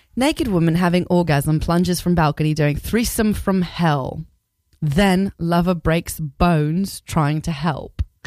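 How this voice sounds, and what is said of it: Put-on English accent. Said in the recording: “I'm gonna do it in an English accent.”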